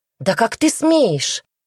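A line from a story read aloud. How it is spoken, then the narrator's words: Shout. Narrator (Russian): Снова крикнула она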